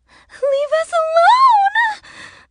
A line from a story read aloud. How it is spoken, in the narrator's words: the older girl screamed